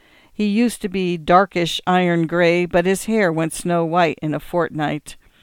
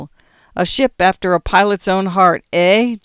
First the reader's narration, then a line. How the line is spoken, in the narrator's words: jeered the man in tweeds